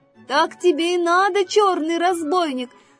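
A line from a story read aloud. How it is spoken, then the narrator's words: Shouted after someone. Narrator (Russian): закричал ему вслед зайка Петя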